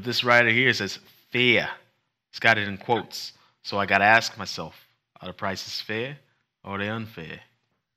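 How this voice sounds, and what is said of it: Fake New York accent. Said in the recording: “my whole fake New York accent”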